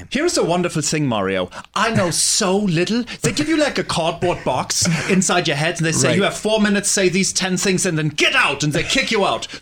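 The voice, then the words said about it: German accent. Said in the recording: “with that charming accent? ... I'm from Germany.”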